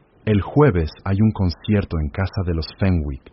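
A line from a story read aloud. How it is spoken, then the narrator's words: Plain. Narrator (Spanish): dijo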